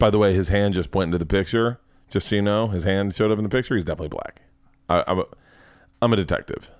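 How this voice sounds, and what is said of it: Usual voice. Nothing is said of it.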